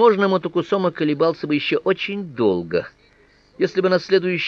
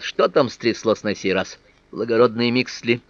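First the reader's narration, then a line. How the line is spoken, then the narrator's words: Grumbling. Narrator (Russian): Я проворчал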